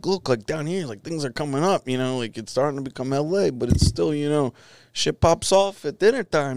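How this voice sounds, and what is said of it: Imitated New York accent. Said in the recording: “he's, you know, from, we'll say, New York ... I'm going to fuck his accent up”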